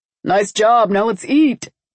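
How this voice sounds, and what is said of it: Deep voice. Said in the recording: “in a deep voice”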